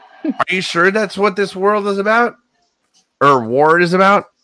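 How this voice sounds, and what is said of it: Slightly slurred drunken speech. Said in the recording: “if I'm slurring my words a little bit. I've been drinking”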